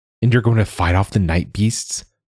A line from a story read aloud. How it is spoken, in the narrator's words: Joa said, his voice rising